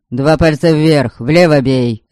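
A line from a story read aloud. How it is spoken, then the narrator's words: Barking. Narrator (Russian): рявкнул Эльг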